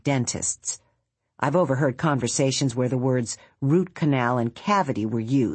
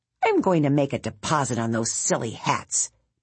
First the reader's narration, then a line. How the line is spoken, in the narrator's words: Bongo muttered